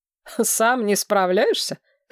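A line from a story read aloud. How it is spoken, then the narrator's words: Snorted. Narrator (Russian): хмыкнул король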